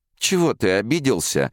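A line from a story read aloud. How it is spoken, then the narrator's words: Laughing. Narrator (Russian): засмеялась Рая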